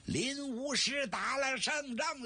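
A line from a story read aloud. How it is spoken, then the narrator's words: Loud shout. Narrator (Chinese): 摇着脑袋呐喊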